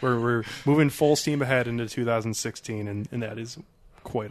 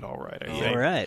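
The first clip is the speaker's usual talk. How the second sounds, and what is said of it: Matthew McConaughey impression. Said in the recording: “There you go, Matthew McConaughey. That is an impression”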